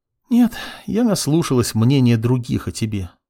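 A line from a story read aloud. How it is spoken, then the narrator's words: Sighing girl. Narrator (Russian): вздохнула девушка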